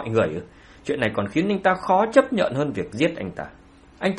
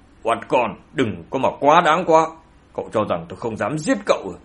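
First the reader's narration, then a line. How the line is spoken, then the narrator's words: Angry. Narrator (Vietnamese): Ông ta ... tức giận nói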